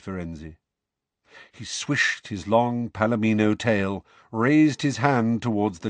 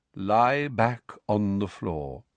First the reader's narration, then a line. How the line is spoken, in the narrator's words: said Firenze in his calm voice